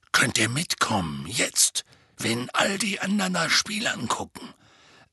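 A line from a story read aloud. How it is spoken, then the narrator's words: Whispering. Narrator (German): flüsterte er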